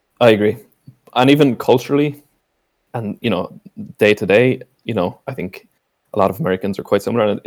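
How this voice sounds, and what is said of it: Irish accent. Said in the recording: “they hear your accent. I'm like, no, like, I'm not, you know, I'm Irish”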